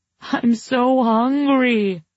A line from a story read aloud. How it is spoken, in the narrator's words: I wailed